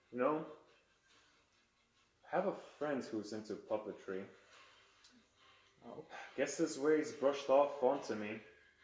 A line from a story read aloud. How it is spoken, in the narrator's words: kind of very calmly, they say